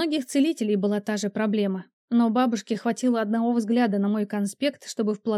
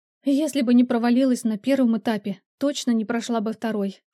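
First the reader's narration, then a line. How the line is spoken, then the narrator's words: Sighing. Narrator (Russian): вздохнула она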